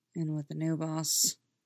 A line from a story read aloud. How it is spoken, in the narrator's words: mutters